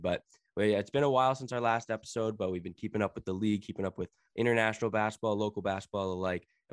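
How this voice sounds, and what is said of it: Voice sounds a little funny. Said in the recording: “I'm coming back from COVID, so my voice is a little funny”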